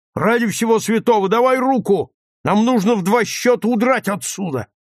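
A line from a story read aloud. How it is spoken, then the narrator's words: Shouting. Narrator (Russian): он крикнул ей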